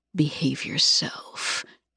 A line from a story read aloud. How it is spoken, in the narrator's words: he whispers